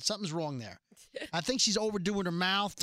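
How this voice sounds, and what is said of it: Put-on Texas accent impression. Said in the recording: “that's not my Texas accent. No. That's just me doing an impression of her... But then again, I guess it is my Texas accent.”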